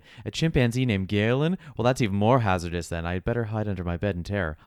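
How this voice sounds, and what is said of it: Sardonic character voice. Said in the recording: “Elta replied sardonically ... character voice”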